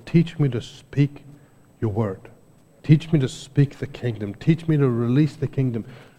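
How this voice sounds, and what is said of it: Non-native English accent. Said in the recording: “I have an accent, right? You can hear I wasn't born here. ... you can hear that I'm not here. My accent gives me away.”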